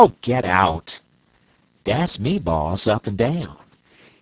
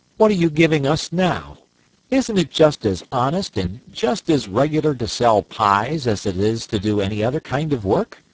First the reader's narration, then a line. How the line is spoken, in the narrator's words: exclaimed the young man in a dramatic tone